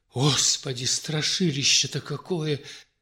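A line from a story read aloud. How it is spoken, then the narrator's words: Exclamation. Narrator (Russian): воскликнула Наталья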